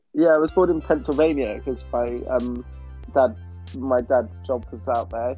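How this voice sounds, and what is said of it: British accent. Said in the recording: “We're based in the UK, if you can tell by our accents.”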